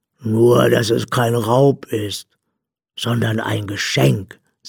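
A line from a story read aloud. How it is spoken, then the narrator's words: Plain. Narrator (German): sagte sie dann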